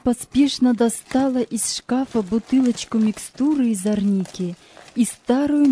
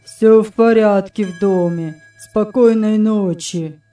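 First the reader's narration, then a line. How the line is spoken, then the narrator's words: Monotone. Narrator (Russian): сказал он монотонным голосом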